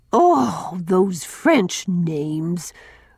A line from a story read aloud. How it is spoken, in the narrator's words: groaned Susan